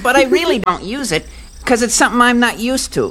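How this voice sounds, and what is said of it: Usual voice. Nothing is said of it.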